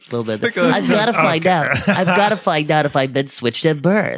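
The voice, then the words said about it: Accented, boyish imitated woman's voice. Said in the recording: “There's a little accent in there... She sounded kind of like a boy”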